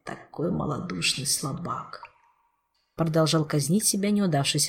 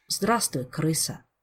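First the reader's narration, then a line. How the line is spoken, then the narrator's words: Sad. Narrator (Russian): грустно произнес узник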